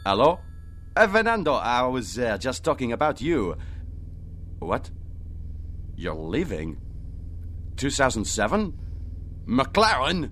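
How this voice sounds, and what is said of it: Outrageous put-on foreign accent. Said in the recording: “as outrageous as my accent”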